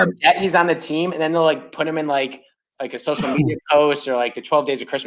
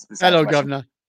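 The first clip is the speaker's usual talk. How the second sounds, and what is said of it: Poorly done put-on accent. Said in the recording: “I can't do any accents.”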